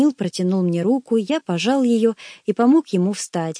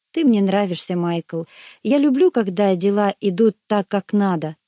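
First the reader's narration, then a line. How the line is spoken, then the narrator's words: Plain. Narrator (Russian): сказал он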